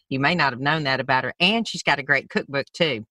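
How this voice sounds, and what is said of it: Southern American accent. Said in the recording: “What's your accent? ... I'm from Alabama.”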